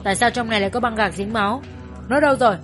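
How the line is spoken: Angry shout. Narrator (Vietnamese): Mắt hắn trớn lên, quát

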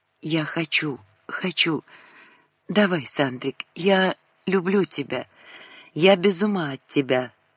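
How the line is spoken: Confident whisper. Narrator (Russian): почувствовала свою силу и зашептала

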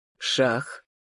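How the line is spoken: Calm. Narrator (Russian): сказал он спокойно

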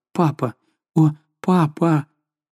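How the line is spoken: Confused babbling. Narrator (Russian): Жанна растерянно лепетала

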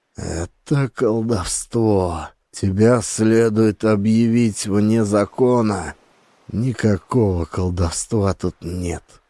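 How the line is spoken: Dull, muffled reply. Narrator (Russian): глухо отозвался Джеральд

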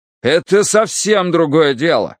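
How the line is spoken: Nearly shouting. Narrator (Russian): почти закричал подполковник Смолянцев

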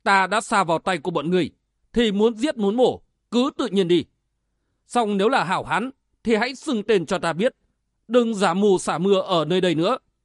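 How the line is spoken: Angry shout. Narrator (Vietnamese): hắn tức giận quát lên

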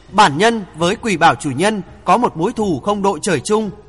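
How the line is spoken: Low, stern voice. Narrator (Vietnamese): Thượng Chí hạ giọng nghiêm nghị nói

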